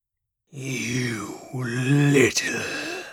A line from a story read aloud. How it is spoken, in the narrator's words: cat snarled